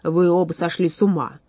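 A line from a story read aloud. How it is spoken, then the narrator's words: Grumbling declaration. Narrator (Russian): заявил он ворчливым голосом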